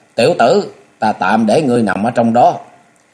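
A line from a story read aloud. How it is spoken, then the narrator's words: Shout into furnace. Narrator (Vietnamese): Ma Ma quát vào trong miệng lò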